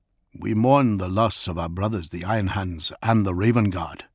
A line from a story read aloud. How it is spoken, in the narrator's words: he said in a gentle, accented voice